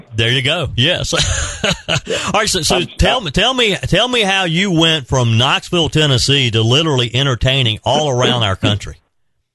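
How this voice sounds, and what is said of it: Upstate South Carolina Southern accent. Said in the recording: “I'm from Greer, South Carolina, and we have a unique accent in Greer than anywhere even in the upstate of South Carolina ... I can never escape that Greer accent regardless of how much I try ... you sound just like them”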